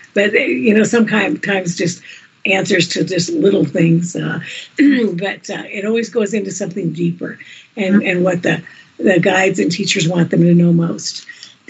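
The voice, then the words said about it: Rough, hoarse voice. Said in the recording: “my voice is a little bit rough today”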